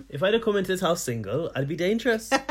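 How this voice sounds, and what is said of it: Put-on Welsh accent. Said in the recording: “Can you do that in a Welsh accent?”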